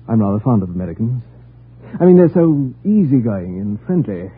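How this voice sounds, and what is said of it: British accent. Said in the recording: “Are you British? ... Your accent.”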